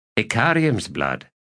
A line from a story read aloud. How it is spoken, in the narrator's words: Bottle said